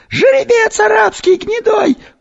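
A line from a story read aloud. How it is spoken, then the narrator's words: Woman's obedient shout. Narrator (Russian): послушно выкрикнула женщина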